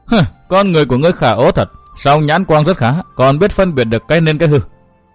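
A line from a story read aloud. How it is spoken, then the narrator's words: Smiling. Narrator (Vietnamese): Tiểu Linh Ngư mỉm cười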